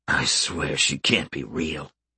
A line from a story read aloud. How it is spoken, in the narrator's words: he muttered to himself